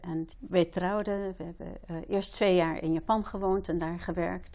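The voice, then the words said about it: Dutch-American accent. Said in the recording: “Je hebt nog steeds zo'n mooi accent, vind ik. Zo'n Nederlands-Amerikaans accent, prachtig.”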